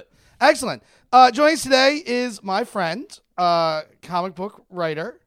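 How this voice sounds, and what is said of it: Loud, shouting voice. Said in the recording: “You're shouting. ... My voice modulation is not great today.”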